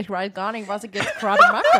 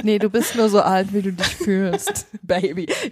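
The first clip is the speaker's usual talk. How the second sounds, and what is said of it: German spoken with English accent. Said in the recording (German): “Jetzt bin ich auf einmal in englischen ähm, Dialekt gerutscht.”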